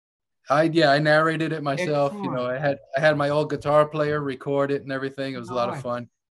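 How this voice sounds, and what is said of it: New York drawl. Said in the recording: “my boring ass, you know, New York drawl”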